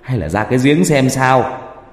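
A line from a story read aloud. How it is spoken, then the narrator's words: Sudden shout. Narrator (Vietnamese): Bỗng một bác hét lên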